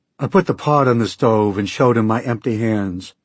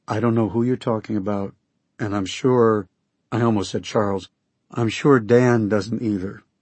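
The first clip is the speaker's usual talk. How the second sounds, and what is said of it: Soft, soothing voice. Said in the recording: “I spoke in my most soothing voice.”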